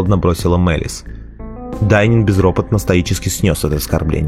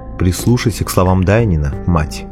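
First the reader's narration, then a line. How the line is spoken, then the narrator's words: Plain. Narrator (Russian): ответила Бриза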